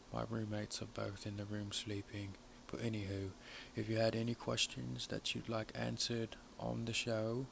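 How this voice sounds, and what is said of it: Speaking in a low, quiet voice. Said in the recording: “I'm talking so low”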